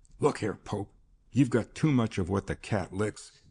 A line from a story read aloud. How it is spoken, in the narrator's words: the butcher savagely and in a hoarse stage whisper exclaimed